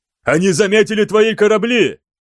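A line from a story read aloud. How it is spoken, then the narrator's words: Roar. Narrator (Russian): взревел Астелян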